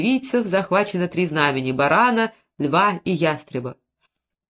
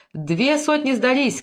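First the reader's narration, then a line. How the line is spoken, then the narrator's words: Several voices shouting. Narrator (Russian): кричали другие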